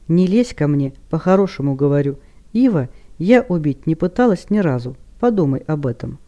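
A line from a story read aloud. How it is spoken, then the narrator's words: Calm. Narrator (Russian): Хел спокойно произнесла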